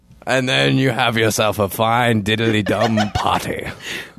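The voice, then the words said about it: Silly put-on character accent. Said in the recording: “I love Schlarty. It's the funnest accent.”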